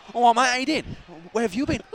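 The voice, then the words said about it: Put-on Cockney accent. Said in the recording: “he came back talking like a Cockney.”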